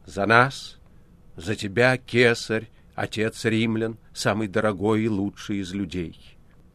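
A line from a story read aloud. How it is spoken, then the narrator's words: Loud toast. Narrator (Russian): прокуратор произнес громко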